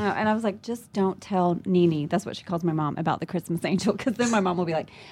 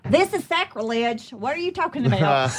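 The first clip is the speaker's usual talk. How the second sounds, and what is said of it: Put-on New York accent. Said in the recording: “That's my New York accent. ... I have worked so hard on it.”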